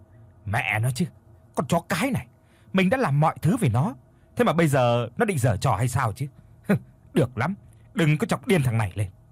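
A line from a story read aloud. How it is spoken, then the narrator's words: Irritated snapping. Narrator (Vietnamese): Có một chút bực bội, anh gắt lên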